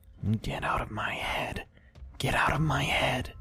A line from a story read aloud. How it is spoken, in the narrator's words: She started to whisper